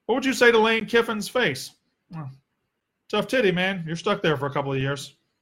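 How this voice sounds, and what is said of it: Southern American accent. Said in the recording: “I do have the Southern accent”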